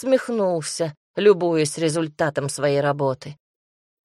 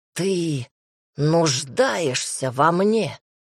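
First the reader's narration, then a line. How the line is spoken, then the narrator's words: Exhausted rat's rasp. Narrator (Russian): Из последних сил прохрипела крыса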